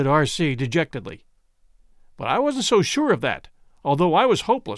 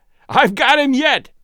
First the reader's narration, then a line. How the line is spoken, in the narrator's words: yelled Arcee with joy